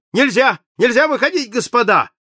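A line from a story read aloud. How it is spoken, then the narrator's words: Shouting. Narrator (Russian): закричал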